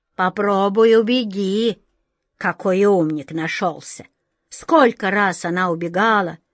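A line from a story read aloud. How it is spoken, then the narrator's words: Old turtle grumbling. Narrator (Russian): проворчала тетушка-черепаха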